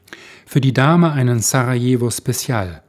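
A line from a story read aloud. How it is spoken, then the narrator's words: Plain. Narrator (German): sagte er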